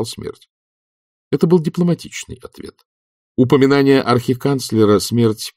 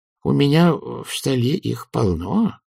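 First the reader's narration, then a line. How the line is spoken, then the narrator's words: Thoughtful drawl. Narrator (Russian): задумчиво протянул чудакулли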